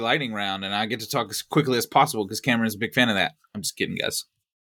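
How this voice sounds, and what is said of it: Texan accent. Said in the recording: “my my my Texan accent”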